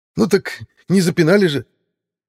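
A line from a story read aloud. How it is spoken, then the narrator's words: Hysterical shout. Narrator (Russian): С истерикой в голосе выкрикнул второй брат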